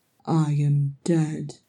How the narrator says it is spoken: Thorin mumbled, his head aching and spinning

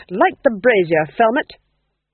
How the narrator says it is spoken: snapped the Duchess

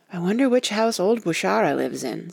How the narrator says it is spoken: said Tacy nervously

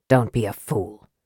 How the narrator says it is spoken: Raistlin said coldly

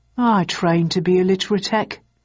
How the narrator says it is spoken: he said wistfully

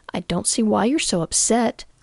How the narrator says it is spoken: Mum said in a quietly reasonable voice

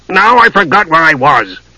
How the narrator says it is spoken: Flint said irritably

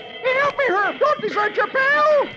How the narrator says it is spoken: Dagwood yells

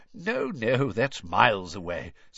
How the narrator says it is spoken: said Mr

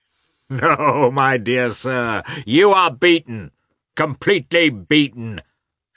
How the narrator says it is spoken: shouted Katavasov merrily

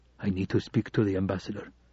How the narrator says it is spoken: whispered

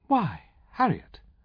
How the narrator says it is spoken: mother's voice exclaimed in surprise, and not altogether in approval

